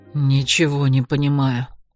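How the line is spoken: Muttered. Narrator (Russian): пробормотал Леройс

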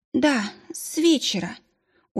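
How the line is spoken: Tired. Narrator (Russian): устало ответила роженица, которую звали Адиль

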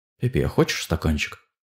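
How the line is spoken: Quiet question. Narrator (Russian): Тихонько спросил

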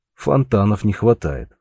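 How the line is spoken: Chuckling. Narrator (Russian): хохотнул Георг

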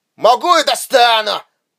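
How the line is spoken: Booming soldier's reply. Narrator (Russian): прогремел в ответ десантник

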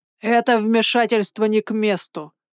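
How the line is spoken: Growl. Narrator (Russian): прорычал он

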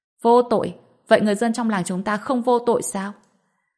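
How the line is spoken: Sudden shout. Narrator (Vietnamese): lập tức hét lên

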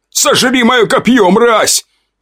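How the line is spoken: Shouted. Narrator (Russian): выкрикнул бывший байкер

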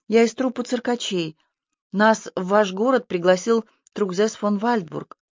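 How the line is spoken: Timid, apologetic. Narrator (Russian): ответила Магдалена и робко добавила, словно извиняясь

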